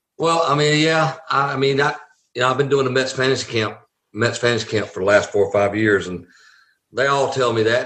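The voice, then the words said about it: Southern American accent. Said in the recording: “I was a Southern boy. You know, most people, where are you from? That accent.”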